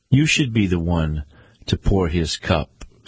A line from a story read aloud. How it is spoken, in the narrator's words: said Pontius